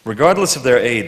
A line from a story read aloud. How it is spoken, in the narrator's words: Stark says